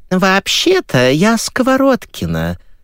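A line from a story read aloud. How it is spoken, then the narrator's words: Thin singsong voice. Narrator (Russian): произнес нараспев тоненький голосок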